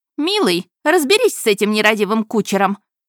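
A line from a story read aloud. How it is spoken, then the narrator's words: Sharp shout. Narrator (Russian): прикрикнула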